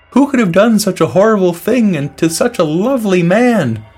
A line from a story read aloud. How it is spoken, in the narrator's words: the peckerhead exclaimed